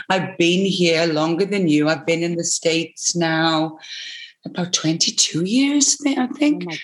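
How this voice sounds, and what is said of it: Acquired American accent. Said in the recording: “this Americanism ... it's just by osmosis that I have an accent”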